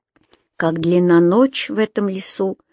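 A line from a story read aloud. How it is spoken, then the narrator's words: Sighing. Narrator (Russian): вздохнул Юм-Юм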